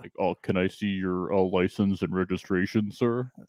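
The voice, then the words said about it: Stock traffic cop voice. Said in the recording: “his impression of Mike is like the standard getting pulled over by a cop impression”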